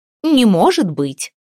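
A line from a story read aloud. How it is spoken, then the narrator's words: Scoffing snort. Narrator (Russian): фыркнула Бьярта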